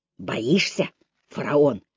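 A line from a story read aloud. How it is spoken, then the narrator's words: Quiet whisper. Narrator (Russian): тихо прошептал он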